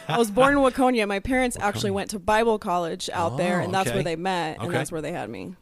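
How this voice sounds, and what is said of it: Minnesota accent. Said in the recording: “Was born in Minnesota... I haven't lost the accent.”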